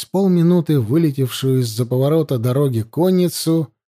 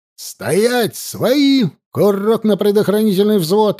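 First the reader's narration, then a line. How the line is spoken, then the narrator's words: Barked command. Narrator (Russian): рявкнул Лёшка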